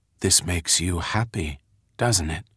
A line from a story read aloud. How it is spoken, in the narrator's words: whispered Dink